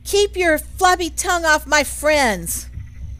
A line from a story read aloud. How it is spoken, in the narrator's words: I yell